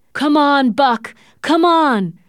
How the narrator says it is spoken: Thornton shouted

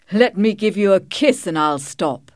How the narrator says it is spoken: he answered, laughing

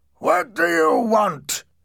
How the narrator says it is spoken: shouted

